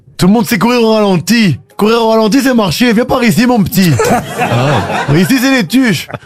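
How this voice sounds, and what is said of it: Imitated Les Tuche accent. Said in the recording (French): “Vous faites l'accent des tuches.”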